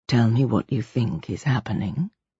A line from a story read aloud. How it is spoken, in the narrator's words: she said in a quiet voice